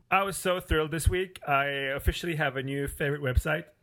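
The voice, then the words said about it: Emotional voice cracking, near tears. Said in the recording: “My voice is cracking up here. Over all the enthusiasm. ... you're close to crying”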